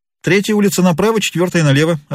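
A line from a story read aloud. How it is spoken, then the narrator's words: Quick answer. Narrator (Russian): ответил быстро приказчик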